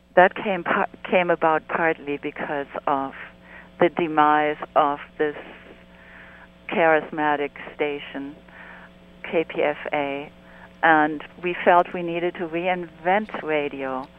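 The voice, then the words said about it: Hoarse, throaty voice. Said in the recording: “I have a frog in my throat.”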